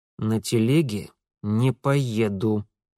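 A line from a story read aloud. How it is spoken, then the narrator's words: Through gritted teeth. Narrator (Russian): процедил Митя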